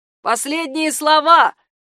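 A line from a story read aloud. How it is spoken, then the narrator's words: Shout. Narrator (Russian): кричал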